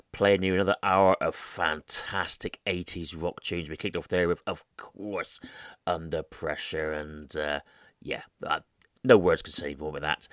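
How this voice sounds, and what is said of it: Devon English accent. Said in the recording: “the man with the Devon accent”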